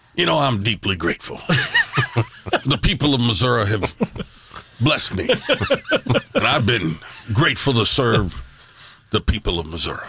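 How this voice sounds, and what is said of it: Imitates another person's voice. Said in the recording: “the best impersonation of political figures ... with General Ashcroft ... I don't know if I can still pull off Ashcroft”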